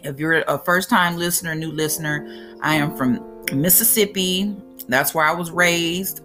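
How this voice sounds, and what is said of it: Southern country American accent. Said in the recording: “you sound kind of country, your accent”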